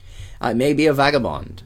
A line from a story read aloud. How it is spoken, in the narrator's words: said Perseus